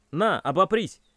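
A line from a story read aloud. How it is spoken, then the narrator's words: Shouted. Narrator (Russian): крикнул я Коляну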